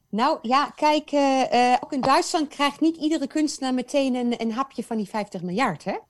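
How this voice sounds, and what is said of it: Foreign accent from the east. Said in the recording (Dutch): “je hebt een prachtig accent, dat komt ergens uit het oosten”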